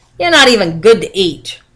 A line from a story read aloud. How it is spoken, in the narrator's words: Juan shouted